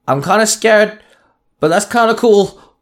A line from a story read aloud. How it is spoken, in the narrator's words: Lip called out